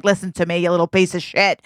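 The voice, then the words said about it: Put-on New York accent. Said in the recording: “I don't even know if I ever lived in New York, but I got an accent. ... what is that accent?”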